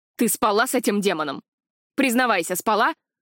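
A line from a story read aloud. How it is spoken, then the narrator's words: Furious shout. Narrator (Russian): Прокричал волной ярости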